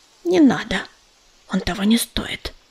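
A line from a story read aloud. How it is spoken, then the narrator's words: Whisper. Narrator (Russian): шепнула она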